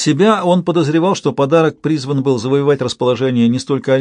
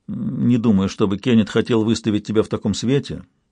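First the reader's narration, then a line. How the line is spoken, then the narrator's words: Quiet interjection. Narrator (Russian): негромко вставил Уинтроу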